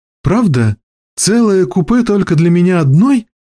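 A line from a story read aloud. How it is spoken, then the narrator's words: Joyful mumbling. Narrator (Russian): радостно бормоча что-то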